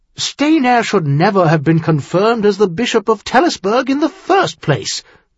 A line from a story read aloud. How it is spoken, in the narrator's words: Clinton half-snapped